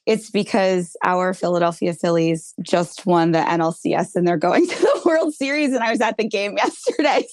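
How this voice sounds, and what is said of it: Raspy, strained voice. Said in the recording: “my voice is raspy today ... I don't have the best voice for an interview today”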